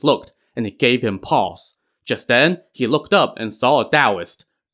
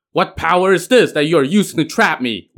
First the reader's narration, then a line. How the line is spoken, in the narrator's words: Wen Zhong shouted